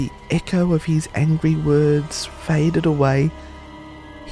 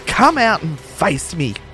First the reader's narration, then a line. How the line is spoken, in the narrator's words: Incensed that all his hard work had been for nothing, Carl exclaimed